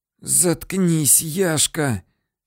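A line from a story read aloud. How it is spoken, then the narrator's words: Hoarse wheeze from floor. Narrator (Russian): сипел с пола Василий Ерохин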